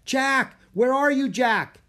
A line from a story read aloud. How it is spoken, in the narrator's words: Annie shout